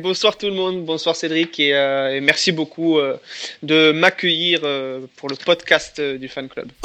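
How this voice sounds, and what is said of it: Toulouse southern French accent. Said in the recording (French): “cette personne-là vient de Toulouse, qui a aussi son accent”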